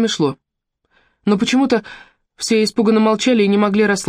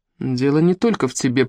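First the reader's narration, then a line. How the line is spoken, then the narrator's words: Muttered. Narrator (Russian): пробормотал Джек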